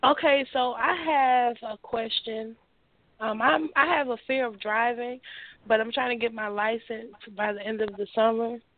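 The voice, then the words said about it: Slightly congested, rough voice. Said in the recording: “Have a little bit of a cold. I'm sorry about my voice.”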